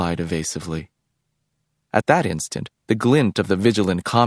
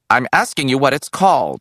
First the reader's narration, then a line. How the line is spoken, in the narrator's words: he snapped